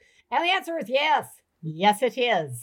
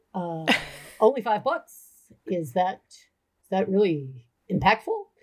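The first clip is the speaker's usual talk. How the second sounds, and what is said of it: Imitates another person's voice. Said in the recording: “Why do I do horrible voices for people? ... I'm going to do you like my dad. ... I'm going to do my father impression.”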